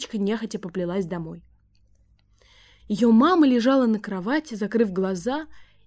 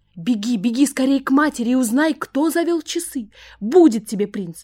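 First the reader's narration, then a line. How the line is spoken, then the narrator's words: Old woman shouting. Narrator (Russian): закричала старушка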